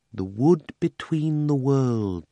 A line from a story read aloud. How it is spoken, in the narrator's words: said Polly dreamily